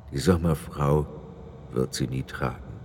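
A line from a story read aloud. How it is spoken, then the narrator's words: Sad addition. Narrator (German): fügte er traurig hinzu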